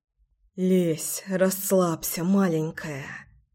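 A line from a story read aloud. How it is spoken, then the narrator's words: Whisper. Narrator (Russian): зашептал я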